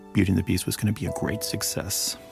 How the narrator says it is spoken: I whispered

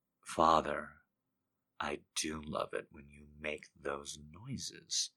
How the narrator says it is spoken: he murmurs

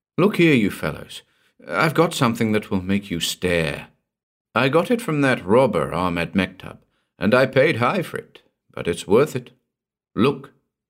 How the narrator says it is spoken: still on the crest of the enthusiasm which had brought me there, I exclaimed

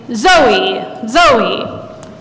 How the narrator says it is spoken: The boy gets really excited and starts practically shouting

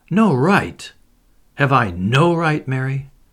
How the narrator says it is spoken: he said unsteadily

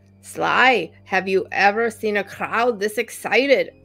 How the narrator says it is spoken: Arnold asked in his Austrian accent

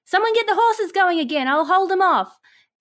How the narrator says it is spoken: I'm going to yell out

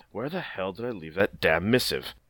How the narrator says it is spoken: he mutters under his breath

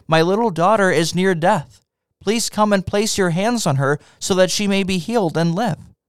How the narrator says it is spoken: repeatedly pleaded with him

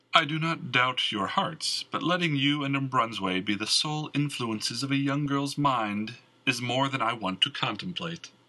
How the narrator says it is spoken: Mal chuckled

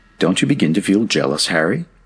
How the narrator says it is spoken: asked Jack in a more serious tone

